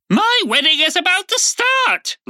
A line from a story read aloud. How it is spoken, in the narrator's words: Lady Olga screamed